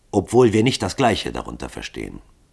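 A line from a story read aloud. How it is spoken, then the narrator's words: Calm reply. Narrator (German): antwortete Hall ruhig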